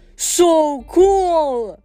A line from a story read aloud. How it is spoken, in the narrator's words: Nico yelled